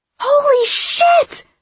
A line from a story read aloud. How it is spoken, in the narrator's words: Piper screams